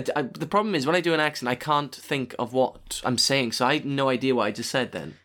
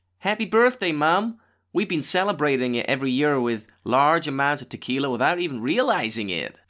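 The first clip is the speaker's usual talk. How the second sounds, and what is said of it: Put-on American accent. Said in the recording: “Do an American accent”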